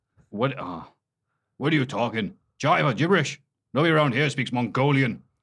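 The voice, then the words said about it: Imitation of Finlay's accent. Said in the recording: “do Finlay's accent”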